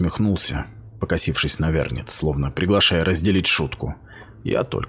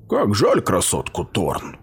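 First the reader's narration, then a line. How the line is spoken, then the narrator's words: Deep bass voice. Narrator (Russian): пробасил Якобсон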